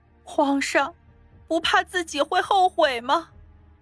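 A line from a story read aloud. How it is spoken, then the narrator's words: Choked, tearful question. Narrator (Chinese): 夏妙玲心中一滞，眼泪再也止不住了，哽咽着问道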